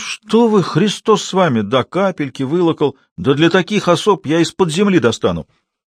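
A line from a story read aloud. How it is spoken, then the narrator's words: Exclaiming. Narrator (Russian): Порфирий Игнатьевич вслух воскликнул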